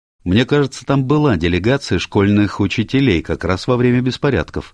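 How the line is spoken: Plain. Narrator (Russian): сказал Адам

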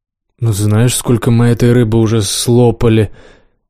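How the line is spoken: Uncertain. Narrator (Russian): неуверенно сказала Лиза

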